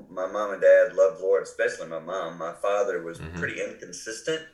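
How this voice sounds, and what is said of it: Carolina accent, congested from cold. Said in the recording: “I grew up in the Carolinas, you can tell by my accent. Today I have a cold, so I have a Carolina cold accent”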